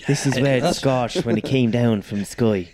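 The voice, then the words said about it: Put-on Irish accent. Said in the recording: “That's quite good, actually. Yeah. I didn't know I could do an Irish accent.”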